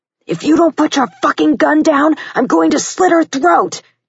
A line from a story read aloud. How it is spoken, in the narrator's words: Dylan yelled